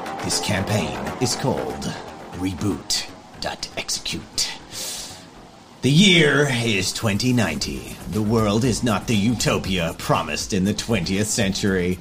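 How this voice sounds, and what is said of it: Put-on American accent narration. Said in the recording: “you're doing like this American accent”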